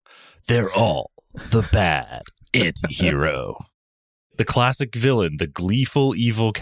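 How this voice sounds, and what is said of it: Usual voice. Nothing is said of it.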